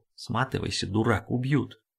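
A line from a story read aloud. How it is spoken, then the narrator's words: Secret whisper. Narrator (Russian): Петер, воспользовавшись тем, что рядом никого не было, шепнул его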